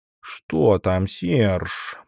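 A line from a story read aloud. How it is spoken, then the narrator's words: Hissed while running up. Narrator (Russian): прошипела подбежавшая Агата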